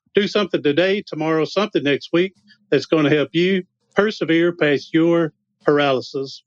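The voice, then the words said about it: Charming accent, cute voice. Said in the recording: “your accent is very charming ... his voice is so cute”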